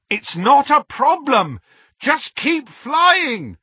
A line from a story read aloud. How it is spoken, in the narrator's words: Harry shouted back